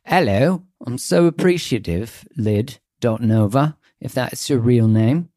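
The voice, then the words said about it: Put-on British accent. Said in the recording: “That accent wasn't too bad... I don't think that British one, I don't think it was too bad”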